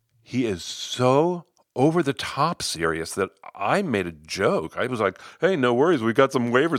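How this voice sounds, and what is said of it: Usual voice. Nothing is said of it.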